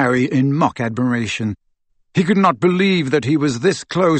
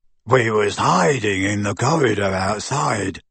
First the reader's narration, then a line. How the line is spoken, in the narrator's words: grunted Goyle